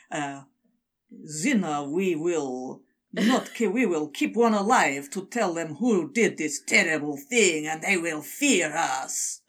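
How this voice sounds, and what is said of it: Put-on Russian-sounding villain voice. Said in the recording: “That's you putting your degree in Russian to good use there.”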